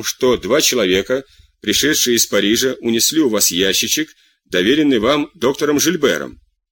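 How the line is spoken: Impassive, flat. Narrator (Russian): спросил тюремщик бесстрастным тоном

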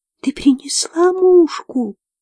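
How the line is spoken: Thin plaintive voice. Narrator (Russian): спросила Флёр тоненьким, жалобным голоском

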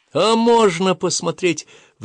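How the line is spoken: Pleading. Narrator (Russian): взмолился Агасир

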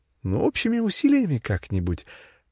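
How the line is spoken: Cheerful young woman. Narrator (Russian): тоже весело сказала девушка

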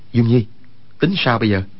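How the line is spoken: Lowered voice. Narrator (Vietnamese): Quách Tĩnh hạ giọng nói

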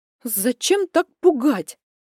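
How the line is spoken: Indignant blurt. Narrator (Russian): возмущенно выпалила

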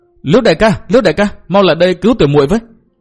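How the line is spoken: Urgent cry. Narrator (Vietnamese): Hà Ngọc Trì vội kêu lên

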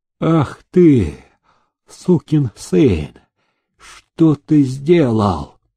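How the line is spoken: Hoarse angry hiss. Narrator (Russian): осипшим голосом зашипел сенатский чиновник

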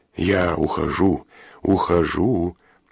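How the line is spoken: Soothing, placating tone. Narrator (Russian): успокаивающим тоном, словно уговаривал психически больного не бросаться на него с ножом, проговорил Турецкий

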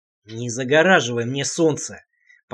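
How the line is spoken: Growled. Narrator (Russian): прорычал я

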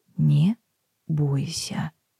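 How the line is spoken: Quiet, measured. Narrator (Russian): тихо с расстановкой проговорила Мэйр

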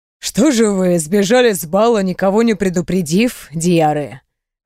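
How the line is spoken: Emperor's amused snort. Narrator (Russian): хмыкнул император

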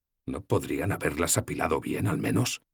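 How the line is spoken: Murmured. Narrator (Spanish): murmuré

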